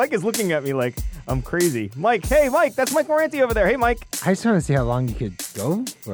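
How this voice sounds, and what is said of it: Usual voice. Nothing is said of it.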